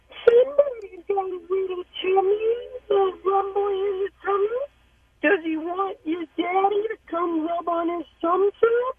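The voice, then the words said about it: Cute baby-talk voice for children. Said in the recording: “that cute voice that you do for the kids when they're sick”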